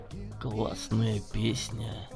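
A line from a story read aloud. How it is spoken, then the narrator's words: Contented purr. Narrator (Russian): довольно промурлыкал Дремов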